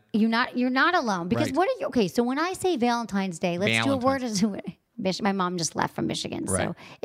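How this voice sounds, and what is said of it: Michigan accent with long A's. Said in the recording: “excuse the long A's and the Michigan accent”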